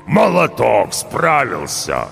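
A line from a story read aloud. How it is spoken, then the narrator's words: Good-natured booming. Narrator (Russian): Добродушно прогудел он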